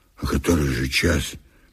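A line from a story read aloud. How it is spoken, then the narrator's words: Hoarse question. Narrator (Russian): Васька … спросил хрипло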